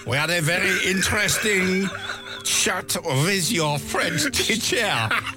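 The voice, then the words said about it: Stern heavy French accent. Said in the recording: “fairly sternly in her heavy French accent... Heavy French accent”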